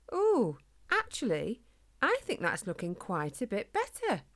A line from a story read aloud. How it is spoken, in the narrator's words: Spike exclaimed